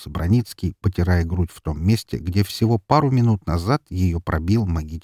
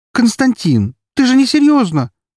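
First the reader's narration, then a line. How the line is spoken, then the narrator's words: Exclamation. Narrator (Russian): воскликнула она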